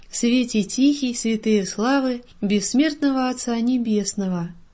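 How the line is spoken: Quiet singing. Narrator (Russian): Дмитрий тихо пел

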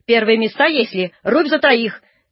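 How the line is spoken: Stern lady's shout. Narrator (Russian): крикнула строго барыня

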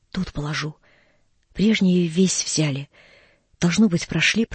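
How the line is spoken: Child's whisper. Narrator (Russian): прошептал детский голос

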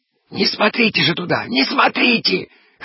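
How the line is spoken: Hoarse wheezing man. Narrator (Russian): хрипел Гуськин

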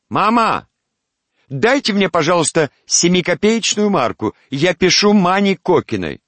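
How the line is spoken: Called out to next room. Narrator (Russian): крикнула в соседнюю комнатушку

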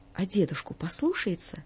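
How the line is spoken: Timid question after pause. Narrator (Russian): сделав глубокую паузу, робко спрашивал

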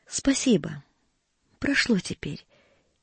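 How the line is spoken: Barely audible. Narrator (Russian): чуть слышно проговорила она

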